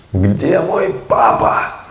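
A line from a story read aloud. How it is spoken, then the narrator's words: Shouting. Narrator (Russian): И он закричал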